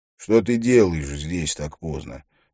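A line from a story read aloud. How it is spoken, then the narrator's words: Plain. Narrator (Russian): спросил Харри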